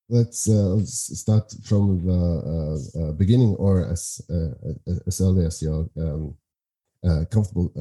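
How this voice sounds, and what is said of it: Norwegian accent mixed with German, Scottish. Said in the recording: “do you have a dialect? ... I guess I'm the, the only uh, Norwegian guy who has a lot of mixtures with German and Scottish ... it's all over the place”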